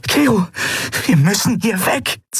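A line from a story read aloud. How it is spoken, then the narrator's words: Hissing. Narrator (German): zischte sie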